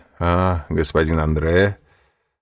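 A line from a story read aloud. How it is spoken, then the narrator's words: Usual half-mocking tone. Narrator (Russian): сказал своим обычным полунасмешливым тоном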